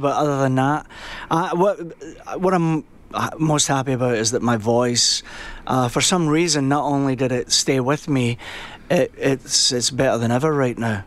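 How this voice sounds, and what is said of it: Scottish accent. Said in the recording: “You seem to have developed a Scottish accent.”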